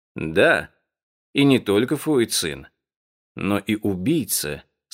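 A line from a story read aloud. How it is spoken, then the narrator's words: Calm admission. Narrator (Russian): спокойно признал Фан Чен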